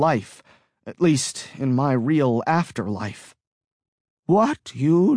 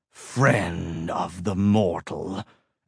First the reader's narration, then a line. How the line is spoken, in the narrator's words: Angelus snarled